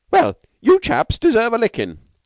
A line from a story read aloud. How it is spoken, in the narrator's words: cried one Norton incautiously